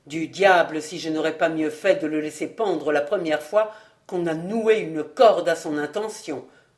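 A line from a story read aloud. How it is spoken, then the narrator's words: Grumbling. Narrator (French): grommela-t-il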